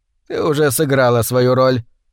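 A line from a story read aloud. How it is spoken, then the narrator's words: Hoarse rasp. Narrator (Russian): прохрипел он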